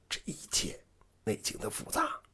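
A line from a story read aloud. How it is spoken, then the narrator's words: Lowered voice. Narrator (Chinese): 压低了声音说道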